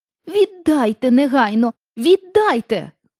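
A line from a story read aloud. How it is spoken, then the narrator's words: Shouting. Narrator (Ukrainian): крикнула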